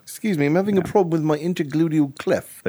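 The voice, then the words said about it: Sophisticated-sounding put-on accent. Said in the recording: “Especially the accent. That is very sophisticated.”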